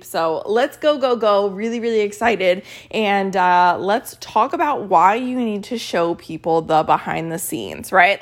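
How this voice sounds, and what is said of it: Tired, slightly off-sounding voice. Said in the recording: “I'm really tired. I love you guys and I'm really tired. So I'm sorry if my voice sounds a little weird. I am still catching up on my sleep.”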